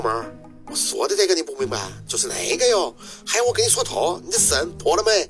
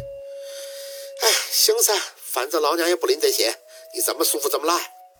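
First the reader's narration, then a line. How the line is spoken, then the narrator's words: Emotional sigh. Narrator (Chinese): 安九在那边满是感慨的叹出口气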